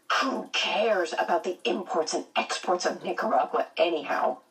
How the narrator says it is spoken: she muttered

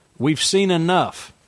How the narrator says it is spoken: Frank said, raising his voice

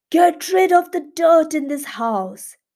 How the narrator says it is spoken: He shouted at the owner saying

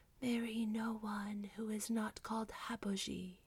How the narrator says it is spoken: she seemed to hear a voice whisper

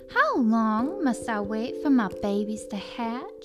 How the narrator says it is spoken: she said

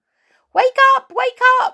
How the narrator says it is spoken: squealed Silky

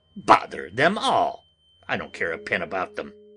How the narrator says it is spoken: said testily

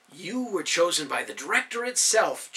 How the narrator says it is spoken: Jeremiah said, pleading his cause

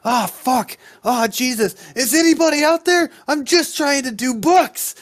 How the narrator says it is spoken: takes good amount of damage and just starts yelling

